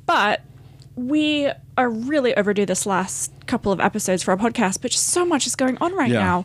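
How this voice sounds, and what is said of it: Talking really fast, stressed. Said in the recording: “So I'm talking really fast because I'm stressed ... my adrenaline's still going”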